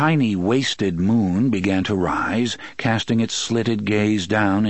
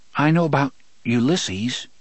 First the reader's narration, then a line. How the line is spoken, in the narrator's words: Jake said hesitantly